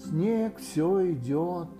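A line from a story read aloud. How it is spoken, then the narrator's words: Gloomy. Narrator (Russian): мрачно сказал Иа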